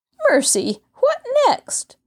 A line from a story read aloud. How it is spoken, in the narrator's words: Floretta gasped as she tried to regain her breath